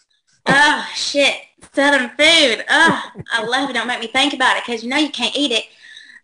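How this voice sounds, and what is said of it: Southern US accent. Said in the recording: “you have a Southern accent.”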